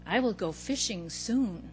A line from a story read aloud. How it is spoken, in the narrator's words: I said to myself quietly